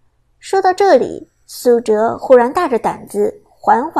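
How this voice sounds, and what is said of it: Usual voice. Nothing is said of it.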